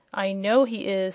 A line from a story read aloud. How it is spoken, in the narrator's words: said Zeb